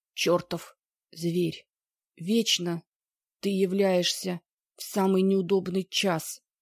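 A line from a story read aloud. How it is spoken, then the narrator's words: Hoarse wheeze. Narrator (Russian): просипел Мон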